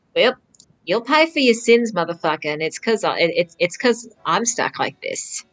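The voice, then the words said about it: Stuck in a put-on accent. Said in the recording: “Are you still stuck in the accent, too? ... What is happening to my fucking voice?”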